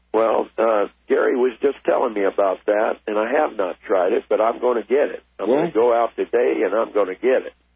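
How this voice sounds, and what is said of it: Troubled, strained voice. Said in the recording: “My voice is kind of giving me a trouble here. ... Yeah, I could hear.”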